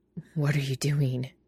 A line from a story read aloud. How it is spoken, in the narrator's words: he asks through gritted teeth